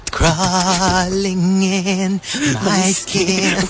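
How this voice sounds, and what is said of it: High, girlish singing voice. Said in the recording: “do you sound like a little school girl?”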